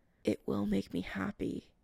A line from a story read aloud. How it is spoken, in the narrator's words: Chris mumbles